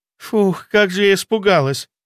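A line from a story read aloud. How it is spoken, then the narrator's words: Relieved exhale. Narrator (Russian): выдохнула Лена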